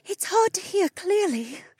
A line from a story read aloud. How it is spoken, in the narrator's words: she panted